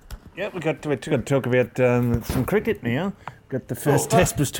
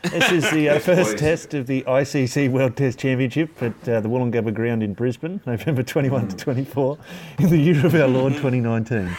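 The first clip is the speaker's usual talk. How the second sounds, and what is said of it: Flat monotone reading voice. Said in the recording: “I'll try and put on my monotone for you”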